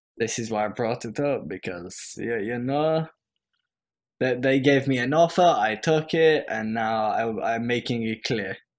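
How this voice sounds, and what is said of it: Put-on character accent. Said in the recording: “I don't know why I'm doing this accent ... He's suddenly becoming Mouse ... You just pick up an inherent accent”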